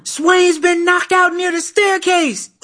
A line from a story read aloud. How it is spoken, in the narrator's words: some white kid dashed into the room yelling